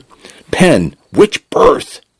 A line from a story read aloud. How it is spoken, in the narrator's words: Jackson shouted